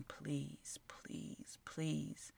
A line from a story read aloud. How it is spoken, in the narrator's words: Fulton … whispering